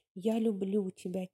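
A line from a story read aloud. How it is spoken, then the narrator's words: Soft. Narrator (Russian): тихо произнес он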